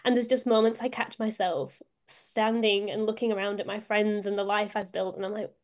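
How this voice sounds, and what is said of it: Northern English accent. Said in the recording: “as you can hear from my accent, I'm not from Australia, I'm from the north of England”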